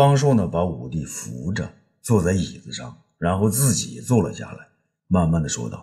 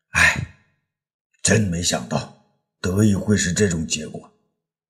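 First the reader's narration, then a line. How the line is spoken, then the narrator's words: Sorrowful sigh. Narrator (Chinese): 武帝 悲伤的叹道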